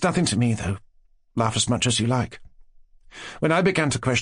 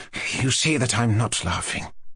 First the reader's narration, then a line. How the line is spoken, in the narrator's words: Nastasia Philipovna pronounced sternly and mournfully